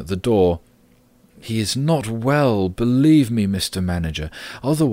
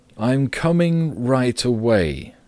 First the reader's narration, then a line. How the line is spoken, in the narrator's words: said Gregor, slowly and deliberately